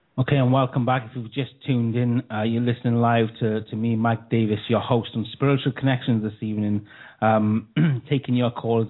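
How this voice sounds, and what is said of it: Welsh accent. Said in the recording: “your accent. ... it's Welsh in the UK.”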